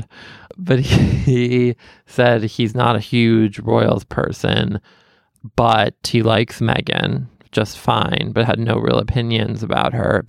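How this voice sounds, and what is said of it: Southern twang accent. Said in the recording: “accent and said it was very unique and that he liked the twang in my accent. This, I guess, I don't know if he was going to mean Southern twang”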